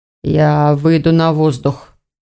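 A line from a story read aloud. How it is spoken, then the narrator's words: Muffled, reluctant reply. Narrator (Russian): глухо ответил Элгар, не желая сейчас говорить с кем бы то ни было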